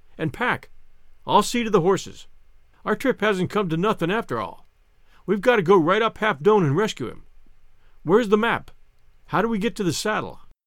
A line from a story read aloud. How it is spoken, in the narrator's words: he cried